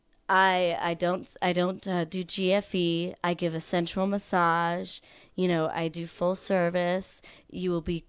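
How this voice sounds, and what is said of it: Sultry, seductive voice. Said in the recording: “sexy voice?... Even sexier.”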